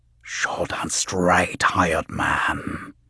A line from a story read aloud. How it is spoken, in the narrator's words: the voice whispered